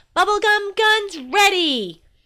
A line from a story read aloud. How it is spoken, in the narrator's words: I yelled